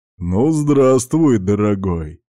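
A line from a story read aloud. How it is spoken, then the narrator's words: Friendly deep bass. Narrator (Russian): приветливо пробасил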